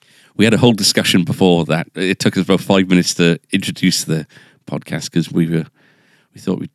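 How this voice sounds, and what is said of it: Usual voice. Nothing is said of it.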